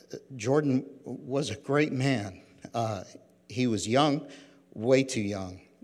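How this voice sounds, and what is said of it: Emotional voice, cracking. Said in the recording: “my voice is already cracking”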